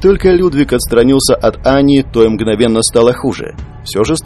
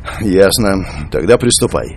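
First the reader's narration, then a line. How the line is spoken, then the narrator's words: Tired sighing old man. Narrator (Russian): Вздохнув, старик устало произнес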